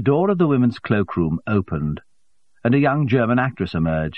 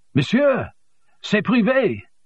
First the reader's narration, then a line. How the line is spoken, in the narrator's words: shouted